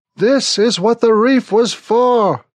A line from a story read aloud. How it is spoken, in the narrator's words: Smithick yells into my ear